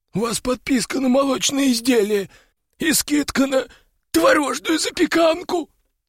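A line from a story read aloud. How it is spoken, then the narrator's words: Squeak. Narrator (Russian): пискнул он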